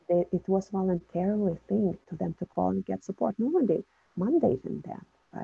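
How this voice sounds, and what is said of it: Non-native English accent. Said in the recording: “they were able to hear my accent”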